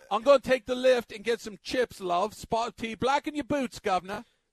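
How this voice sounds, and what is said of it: Put-on British accent. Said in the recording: “British accent ... Don't you polish up on your British accent?”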